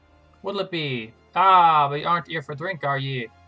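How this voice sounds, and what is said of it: Put-on old-fashioned rustic accent. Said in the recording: “I'm not making this accent up.”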